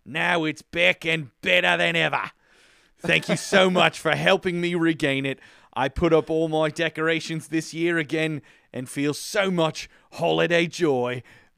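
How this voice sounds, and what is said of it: Put-on New Zealand accent. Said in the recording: “I hope I didn't completely desecrate your accent.”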